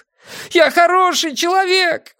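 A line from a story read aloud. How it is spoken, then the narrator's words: Wailing loudly. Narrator (Russian): вопил он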